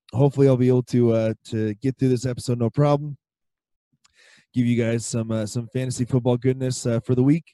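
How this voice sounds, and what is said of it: Hoarse, strained, fading voice. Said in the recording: “as you can tell, I am losing my voice again”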